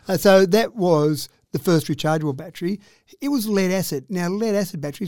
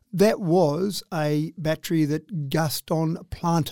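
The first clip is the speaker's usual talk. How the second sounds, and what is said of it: Put-on French accent on name. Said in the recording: “did I say that with a French accent? ... Yeah, that sounded good enough for me.”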